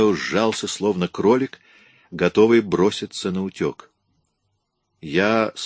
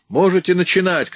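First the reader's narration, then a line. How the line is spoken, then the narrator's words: Shouted. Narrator (Russian): крикнул я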